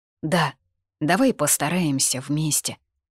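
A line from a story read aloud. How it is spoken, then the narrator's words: Hoarse utterance. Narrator (Russian): вымолвила хрипло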